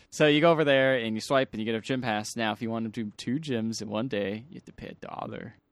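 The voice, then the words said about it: New Jersey accent. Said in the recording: “That's just his New Jersey accent.”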